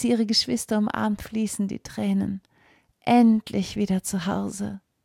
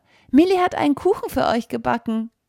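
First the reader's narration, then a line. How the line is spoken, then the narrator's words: Child calling out. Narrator (German): ruft der kleine Bruder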